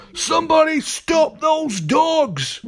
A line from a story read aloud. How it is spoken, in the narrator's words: she cried